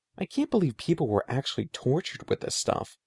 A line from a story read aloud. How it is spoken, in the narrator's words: Eddie murmured